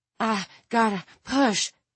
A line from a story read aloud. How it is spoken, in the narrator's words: Tiffany panted